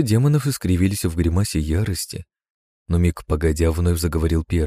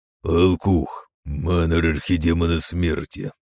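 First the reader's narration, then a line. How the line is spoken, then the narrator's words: Deep bass voice. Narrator (Russian): пробасил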